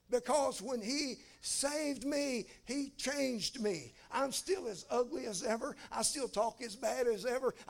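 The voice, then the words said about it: Southern US accent. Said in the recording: “Some people even tell me I got an accent. Some of them say, y'all, like I'm from Alabama”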